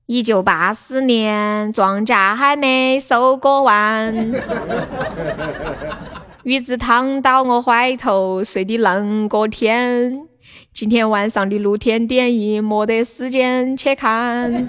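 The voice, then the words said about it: Singing in Sichuanese dialect. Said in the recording (Chinese): “这个歌用四川话唱是什么感觉？...这个用四川话唱是什么样子？”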